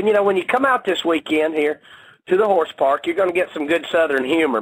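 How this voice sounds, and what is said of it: Georgia Southern accent. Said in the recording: “is just bringing the Georgia accent.”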